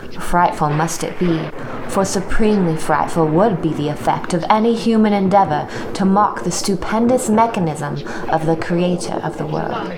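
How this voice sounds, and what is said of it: Put-on accent during dramatic reading. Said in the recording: “Her accent was much better than mine”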